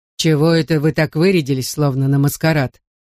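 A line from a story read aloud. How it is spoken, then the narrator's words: Grinding growl. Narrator (Russian): прорычал он голосом, похожим на скрежет бетономешалки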